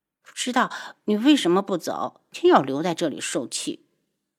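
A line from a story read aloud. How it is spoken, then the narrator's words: Displeased muttering. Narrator (Chinese): 楚清瑶不悦地嘀咕了一句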